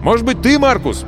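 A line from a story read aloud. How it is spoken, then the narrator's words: Shouting. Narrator (Russian): крикнул он смотрителю катка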